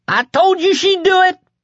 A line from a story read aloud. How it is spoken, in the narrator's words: the kid screamed triumphantly